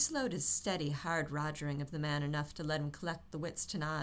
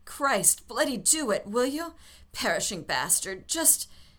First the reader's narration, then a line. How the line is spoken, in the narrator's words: choked off the words